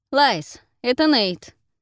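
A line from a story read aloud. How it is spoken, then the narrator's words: Loud announcement. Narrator (Russian): объявил громко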